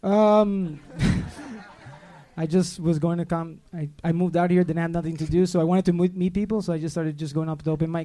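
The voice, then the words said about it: Thick accent. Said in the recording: “Did your accent just get a lot thicker all of a sudden?”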